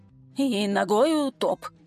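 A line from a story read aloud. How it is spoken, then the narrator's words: Frightened mutter. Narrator (Russian): пробормотал он побелевшими губами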